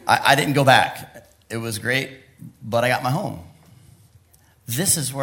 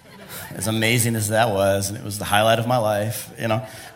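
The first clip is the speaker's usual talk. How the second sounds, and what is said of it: Sarcastic tone. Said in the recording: “being sarcastic.”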